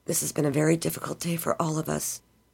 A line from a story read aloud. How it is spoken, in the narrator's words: Beth said softly